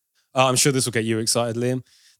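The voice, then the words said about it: Sarcastic tone. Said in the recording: “you were being sarcastic”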